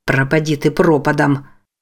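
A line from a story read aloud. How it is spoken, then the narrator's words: Muttering. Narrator (Russian): бормотал Джейк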